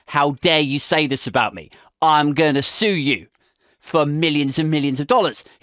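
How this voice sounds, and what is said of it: Poor impression in generic American accent. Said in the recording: “Terrible Trump impression. I just did my generic American voice”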